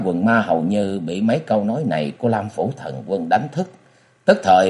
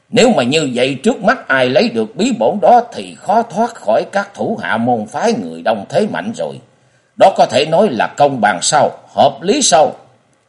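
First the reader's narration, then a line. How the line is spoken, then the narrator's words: Angry shout. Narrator (Vietnamese): Lâm Phủ Thần Quân với ánh mắt giận dữ ... quát lên nói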